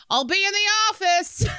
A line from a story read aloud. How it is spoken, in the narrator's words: The server yelled